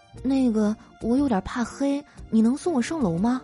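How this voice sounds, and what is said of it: Soft, quiet whispered voice. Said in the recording (Chinese): “小声的说”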